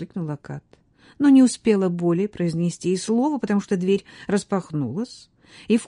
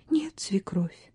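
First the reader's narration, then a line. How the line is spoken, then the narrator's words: Whisper. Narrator (Russian): прошептала невеста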